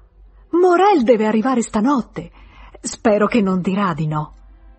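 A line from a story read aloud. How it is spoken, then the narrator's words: Frightened feigned exclamation. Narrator (Italian): ebbe una gran paura e, per evitare qualsiasi spiegazione, si batté la fronte esclamando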